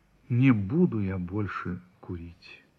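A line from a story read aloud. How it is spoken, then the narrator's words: Shaken, dejected voice. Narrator (Russian): вздрогнул и сказал упавшим голосом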